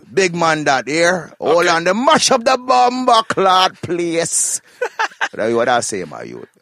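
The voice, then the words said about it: Put-on rugged Jamaican patois. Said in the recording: “like a more rugged ... Jamaica talk”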